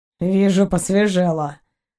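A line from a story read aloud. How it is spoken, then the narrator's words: Grumbling. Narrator (Russian): проворчал Заури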